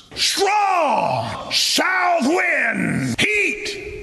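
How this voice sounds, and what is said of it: Sinister fairy-tale villain voice. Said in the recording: “You can't talk like that ... you sound like a fairy tale villain casting spells over a bubbling cauldron ... You sound like if Gargamel played the closeted gay serial killer fundamentalist preacher”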